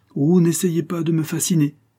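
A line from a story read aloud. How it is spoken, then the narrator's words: Sneering. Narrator (French): repris-je en ricanant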